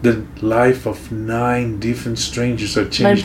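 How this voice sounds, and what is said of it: Podcast voice. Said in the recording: “my podcast voice”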